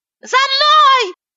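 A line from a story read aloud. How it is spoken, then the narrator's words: Shout. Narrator (Russian): закричала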